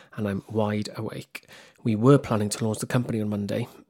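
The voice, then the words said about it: Whispering. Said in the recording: “as it's 3 a.m. in the bloody morning, hence why I'm whispering”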